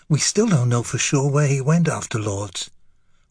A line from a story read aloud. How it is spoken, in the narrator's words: whispered Beauvoir